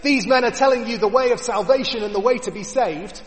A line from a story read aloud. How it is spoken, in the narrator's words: yelling